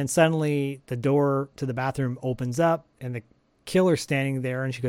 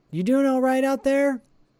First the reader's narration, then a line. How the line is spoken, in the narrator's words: yells out